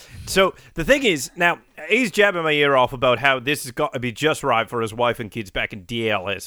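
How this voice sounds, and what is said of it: Mixed English, Irish, Australian put-on accent. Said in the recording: “my flawless, perfect English, Irish, Australian accent.”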